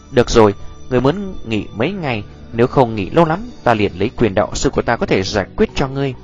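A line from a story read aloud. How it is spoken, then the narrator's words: Gentle soft speech. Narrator (Vietnamese): Nhược Lâm đạo sư khẽ nhíu lại, rồi là nhẹ nhàng gật đầu ôn nhu nói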